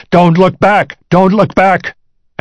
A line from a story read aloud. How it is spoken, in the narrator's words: another voice bellowing